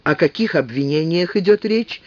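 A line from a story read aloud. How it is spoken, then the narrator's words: Calm question. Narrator (Russian): тем же спокойным тоном спросил Томас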